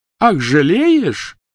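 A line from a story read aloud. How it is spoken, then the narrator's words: Shrill laughter. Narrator (Russian): Гермиона пронзительно расхохоталась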